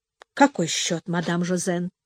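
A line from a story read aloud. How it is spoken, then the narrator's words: Cold question. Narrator (Russian): холодно спросила мадемуазель Диана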